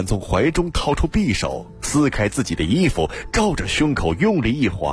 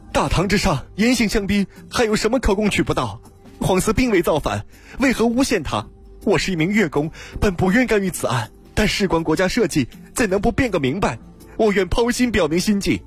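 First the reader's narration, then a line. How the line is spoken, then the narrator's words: Loud shout. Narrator (Chinese): 有一个人闯入公堂，大声叫道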